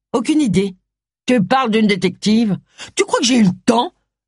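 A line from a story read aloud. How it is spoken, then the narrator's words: Furious voice. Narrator (French): lança Agatha d'une voix rageuse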